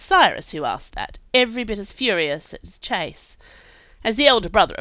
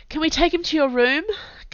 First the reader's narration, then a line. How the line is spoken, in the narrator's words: Camilla asked Cyrus, with a sob in her throat